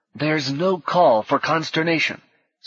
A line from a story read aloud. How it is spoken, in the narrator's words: someone was singing urgently as the orchestra wailed and stomped in the background